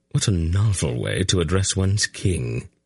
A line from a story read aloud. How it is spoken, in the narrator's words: Silk murmured to Javelin